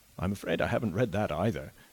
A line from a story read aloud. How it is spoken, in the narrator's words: was the young man's rejoinder, laughing a little and blushing